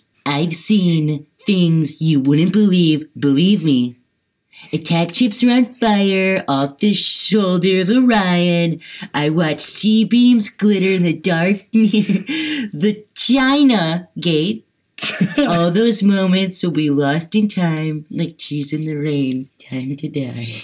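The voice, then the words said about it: Donald Trump impression. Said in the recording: “do it in your Trump voice”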